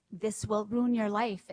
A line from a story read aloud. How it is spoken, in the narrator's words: it said